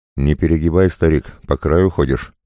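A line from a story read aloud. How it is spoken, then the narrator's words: Growling wolf. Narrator (Russian): прорычал волк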